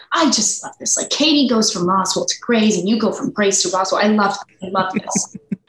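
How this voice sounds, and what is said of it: Boston-accented impression of Ellen. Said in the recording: “In her like Boston ... your Boston Ellen impression. That was amazing.”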